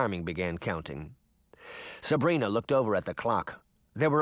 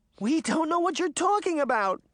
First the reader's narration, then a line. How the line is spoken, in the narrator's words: Daphne cried